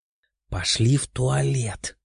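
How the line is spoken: Quiet. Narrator (Russian): тихо сказала она

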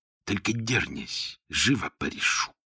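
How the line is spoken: Angry hiss. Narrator (Russian): мужик в кепке, который злобно прошипел

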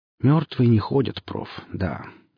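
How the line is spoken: Sighing. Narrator (Russian): вздохнула Хип

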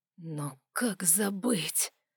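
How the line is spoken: Whisper. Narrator (Russian): прошептал он

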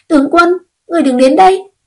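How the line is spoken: Sudden shout. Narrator (Vietnamese): đột nhiên một tiếng quát truyền tới

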